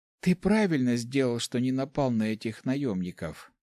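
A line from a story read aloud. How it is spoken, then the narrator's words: Whisper. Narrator (Russian): прошептала она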